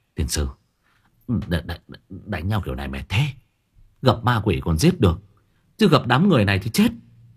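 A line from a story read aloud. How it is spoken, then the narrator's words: Breathless panting. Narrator (Vietnamese): Mặc thở hổn hển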